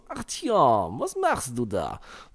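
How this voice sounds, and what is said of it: Put-on Russian accent. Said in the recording (German): “die Typen keinen russischen Akzent mehr hatten ... bei Last Light hatten die noch diesen so”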